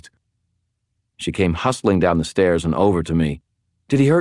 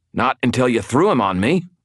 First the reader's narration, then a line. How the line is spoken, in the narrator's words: I snapped, being repeatedly bashed about makes me grumpy